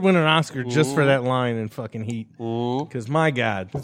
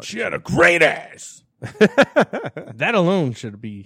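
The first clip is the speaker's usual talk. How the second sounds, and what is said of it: Rough impression of a film actor. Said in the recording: “that's Pacino, right? ... my impersonation was very off ... it was on enough that I got it”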